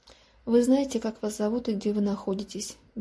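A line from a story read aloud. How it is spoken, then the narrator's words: Lifeless flat voice. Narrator (Russian): безжизненным голосом поинтересовалась женщина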